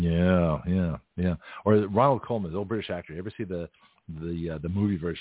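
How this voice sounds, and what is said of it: Usual voice. Nothing is said of it.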